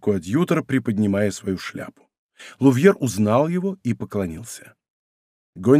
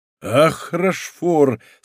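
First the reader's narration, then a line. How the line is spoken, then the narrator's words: Laughing while speaking. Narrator (Russian): сказал, смеясь Гонди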